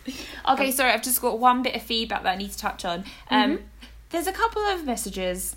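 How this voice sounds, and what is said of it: English accent, sometimes mistaken for New Zealand. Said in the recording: “Where my accent is from ... He thought you were from New Zealand ... I get Australia”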